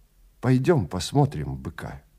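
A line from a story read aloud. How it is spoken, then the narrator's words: Plain. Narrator (Russian): сказал Вилли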